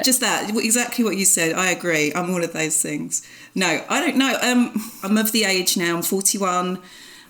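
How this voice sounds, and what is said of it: Essex English accent. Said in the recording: “I just love your Essex accent”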